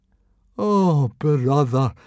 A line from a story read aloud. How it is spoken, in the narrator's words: moaned Fishlegs miserably